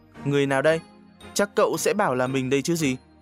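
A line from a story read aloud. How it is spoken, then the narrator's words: Stern question. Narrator (Vietnamese): chú cất giọng hỏi nghiêm nghị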